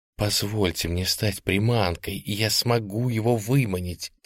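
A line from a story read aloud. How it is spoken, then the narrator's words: Quiet pleading. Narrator (Russian): тихо умолял я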